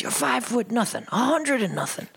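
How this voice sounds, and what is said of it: Impression of the character Fortune. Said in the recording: “great, great impression”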